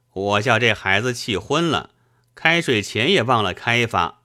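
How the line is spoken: Laughing. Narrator (Chinese): 他笑道

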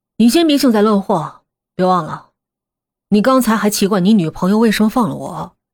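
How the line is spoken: Calm indifferent tone. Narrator (Chinese): 风影……冲阿弟淡淡的说

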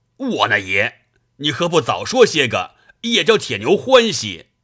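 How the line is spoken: Excited shout. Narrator (Chinese): 李逵拍手叫道

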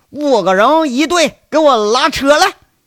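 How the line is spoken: Thunderous booming shout. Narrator (Chinese): 老锤那大喊的如同呃大嗓子啊，大嗓子就像炸雷一样在那喊呢

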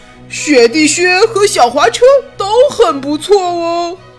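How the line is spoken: Loud hurried. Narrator (Chinese): 奥肯 赶紧大声说

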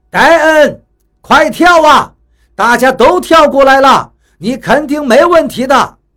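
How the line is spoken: Shouting. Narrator (Chinese): 雷森喊道

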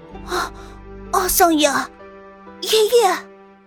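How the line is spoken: Tense soft call. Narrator (Chinese): 阿达利一僵，轻轻喊了一声

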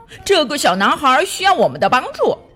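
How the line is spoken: Calling out. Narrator (Chinese): 他们叫道

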